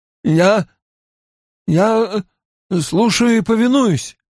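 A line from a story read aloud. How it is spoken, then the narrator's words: Strained, muffled into carpet. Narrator (Russian): выдавил Каридин, уткнувшись лицом в ковер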